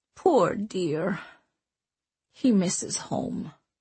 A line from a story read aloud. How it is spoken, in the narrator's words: Leona murmured